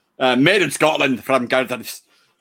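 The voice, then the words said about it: Poor put-on Scottish accent. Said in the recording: “Sorry about the probably poor Scottish accent.”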